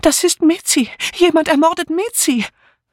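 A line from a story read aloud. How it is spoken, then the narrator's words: Sobbing woman crying out. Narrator (German): Dora Banner, die still vor sich hin schluchzte, rief nun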